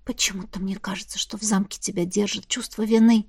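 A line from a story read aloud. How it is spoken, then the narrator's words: Whisper. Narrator (Russian): шепнула я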